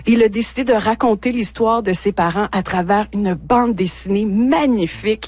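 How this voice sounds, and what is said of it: Haitian accent. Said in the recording (French): “vous entendez mon accent haïtien”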